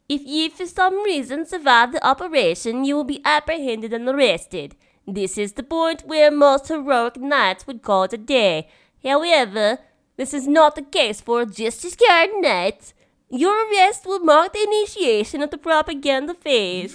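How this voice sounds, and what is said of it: Put-on Swedish accent. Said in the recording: “you go for a Swedish accent for us”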